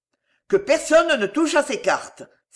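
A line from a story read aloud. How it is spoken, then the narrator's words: Duke exclaiming. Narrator (French): s'écria le duc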